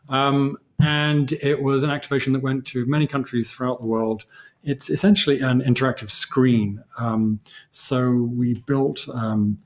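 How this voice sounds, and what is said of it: English accent. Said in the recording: “You'll know from the English accent.”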